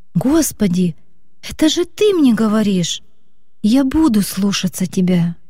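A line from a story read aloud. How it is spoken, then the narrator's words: Girl's excited exclamation. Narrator (Russian): девочка воскликнула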